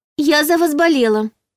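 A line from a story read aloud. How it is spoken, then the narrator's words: Squeaky young woman. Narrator (Russian): первой пискнула девушка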